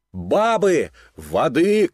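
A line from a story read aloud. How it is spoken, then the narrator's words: Shouted. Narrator (Russian): кричал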